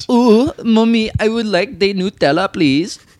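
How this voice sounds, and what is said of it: Bad put-on Dutch-sounding accent. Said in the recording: “Mine's bad. Mine sounds Dutch. Dutch. ... It sounds like the caterpillar from Bug's Life, Heimlich.”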